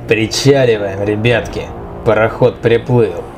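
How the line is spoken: Hoarse male voice. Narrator (Russian): сиплым голосом произнес третий мужчина

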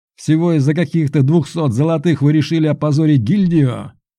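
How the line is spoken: Yelling. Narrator (Russian): Орал он

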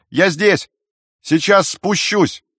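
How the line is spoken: Shouted back. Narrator (Russian): Он набрал в легкие воздуха и крикнул в ответ

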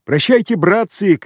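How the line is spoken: Shout. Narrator (Russian): крикнул он

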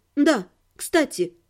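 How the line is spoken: Calm. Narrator (Russian): спокойно сказала я

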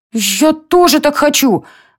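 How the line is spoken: Exclaiming. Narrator (Russian): воскликнула Лора

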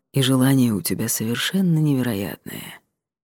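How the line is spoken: Gentle, affectionate. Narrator (Russian): произнес он ласково

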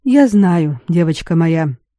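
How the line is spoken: Calm, simple reply. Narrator (Russian): так спокойно и просто ответил Раверстан

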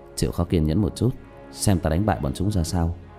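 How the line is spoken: Soft low voice. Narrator (Vietnamese): khẽ giọng với Diệp Tiểu Manh

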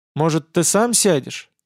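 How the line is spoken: Hesitant question. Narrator (Russian): Неуверенно спросила она

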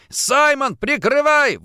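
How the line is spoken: Shouting. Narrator (Russian): выкрикнул я

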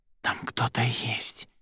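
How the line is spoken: Barely audible. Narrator (Russian): еле слышно сказала Арадия

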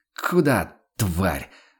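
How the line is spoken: Fierce hiss. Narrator (Russian): ожесточенно прошипел Ванолин

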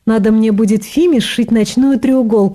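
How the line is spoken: Joking. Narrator (Russian): пошутила Рита

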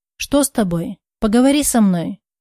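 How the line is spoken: Gentle coaxing. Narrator (Russian): Мягко начал увещевать он

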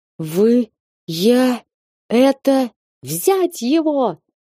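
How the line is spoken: Hoarse rasp. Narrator (Russian): Наконец прохрипел Симмерсон

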